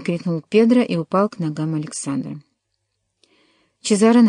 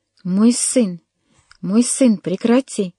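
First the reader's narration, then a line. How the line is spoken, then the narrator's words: Exclamation. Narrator (Russian): воскликнул он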